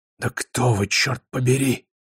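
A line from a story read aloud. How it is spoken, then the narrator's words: Hoarse whisper. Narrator (Russian): раздался его хриплый шепот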